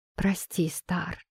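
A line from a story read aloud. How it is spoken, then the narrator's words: Whisper. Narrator (Russian): прошептал он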